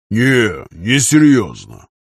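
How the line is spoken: Deep bass voice. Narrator (Russian): пробасил Аркадий Шафран

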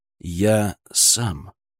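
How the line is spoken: Quiet but whip-sharp. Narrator (Russian): произнес я тихо, но мой голос прозвучал в гулкой тишине приемного покоя, как удар хлыста

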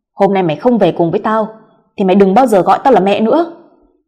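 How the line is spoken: Stern, angry. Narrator (Vietnamese): bà đanh mặt nói

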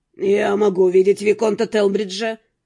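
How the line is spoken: Plain. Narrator (Russian): спросил Нортон

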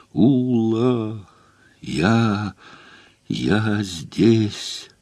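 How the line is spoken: Distant hoarse strangled cry. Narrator (Russian): доносился до меня сиплый, задушенный крик Эйнгольца

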